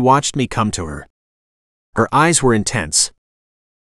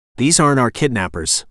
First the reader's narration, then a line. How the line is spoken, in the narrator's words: Kalia said